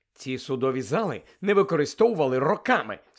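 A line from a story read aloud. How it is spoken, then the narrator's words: Said angrily. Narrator (Ukrainian): сердито сказав містер Уізлі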